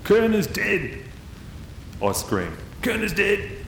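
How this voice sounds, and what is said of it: Shouted, not very good Russian accent. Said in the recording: “I scream into the mic in my best Russian accent which it probably isn't that good.”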